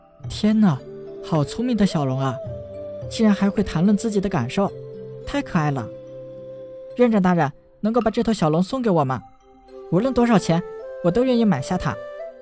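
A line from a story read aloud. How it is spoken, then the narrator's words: Sighing. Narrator (Chinese): 龙武叹道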